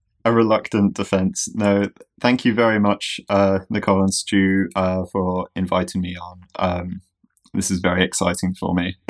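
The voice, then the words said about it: British accent. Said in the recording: “hailing from the UK, as you can probably tell from the adorable accent”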